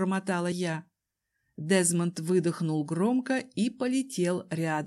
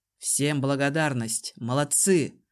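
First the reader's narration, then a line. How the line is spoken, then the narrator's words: Dry, curt. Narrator (Russian): сухо сказал он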